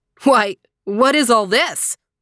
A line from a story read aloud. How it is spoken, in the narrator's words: the hunter cried